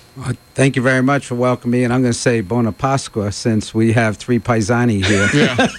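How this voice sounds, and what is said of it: New Jersey East Coast accent. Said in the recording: “The audience is going to pick up my accent. It's a little on the east side of San Diego, like in Hoboken, New Jersey ... the Eastern accent”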